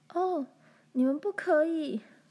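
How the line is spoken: Laughing uncontrollably. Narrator (Chinese): 但是他无法停止大笑

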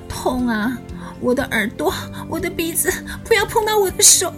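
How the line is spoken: Crying out in pain. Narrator (Chinese): 我哭喊着说

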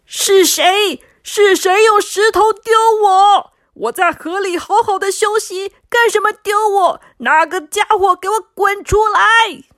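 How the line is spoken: Loud. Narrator (Chinese): 他大声的说

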